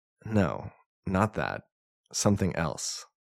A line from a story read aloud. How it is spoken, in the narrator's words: I said